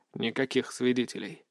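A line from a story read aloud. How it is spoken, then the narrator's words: Muttered. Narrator (Russian): пробормотал Сергей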